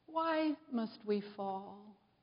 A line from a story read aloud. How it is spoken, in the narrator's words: the first leaf said quietly to herself